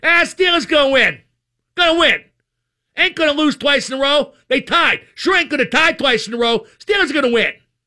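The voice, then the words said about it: Put-on Brooklyn or Pittsburgh accent. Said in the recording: “Am I doing a Brooklyn accent or a Pittsburgh accent or some new accent?”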